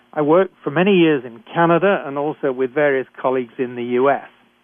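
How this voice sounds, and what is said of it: British accent. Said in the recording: “I'm a physician trained in Britain, as I'm sure you can tell from my accent.”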